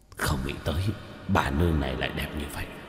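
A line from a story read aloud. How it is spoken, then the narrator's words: Throaty awed muttering. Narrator (Vietnamese): hai quỷ vương, trong cổ họng một trận nhấc lên nhấc xuống lẩm bẩm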